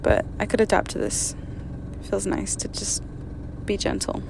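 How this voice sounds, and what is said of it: Soft, gentle voice, sore throat. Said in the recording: “my throat is fucked up right now ... I'm talking very softly.”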